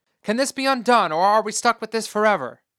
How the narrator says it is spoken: asked

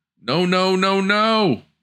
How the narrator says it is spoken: A tree frog cried a warning

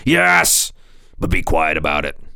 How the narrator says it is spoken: barked

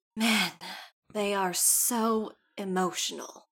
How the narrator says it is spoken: Bella sighs very heavily and just says

